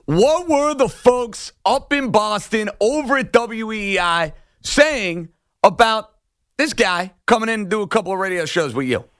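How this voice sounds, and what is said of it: Thick New York accent. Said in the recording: “I have a little bit of a thick accent ... I wear my New York emotions on my sleeve”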